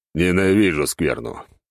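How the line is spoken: Grumbled. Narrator (Russian): проворчал я

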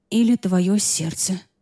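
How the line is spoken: Impulsive mutter. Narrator (Russian): пробормотала я, не подумав

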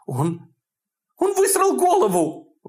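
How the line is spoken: Exclaiming. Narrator (Russian): воскликнула Хелен

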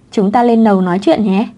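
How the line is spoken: Smiling friendly voice. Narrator (Vietnamese): Triệu Húc mỉm cười nói với cô

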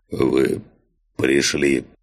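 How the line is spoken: Hoarse rasp. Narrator (Russian): прохрипел он

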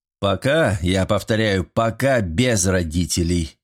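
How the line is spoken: Menacing announcement. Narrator (Russian): грозно объявил Свиридов

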